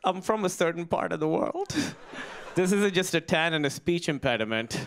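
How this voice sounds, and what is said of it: Noticeable foreign accent. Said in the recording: “My accent is funny. ... my accent is funny.”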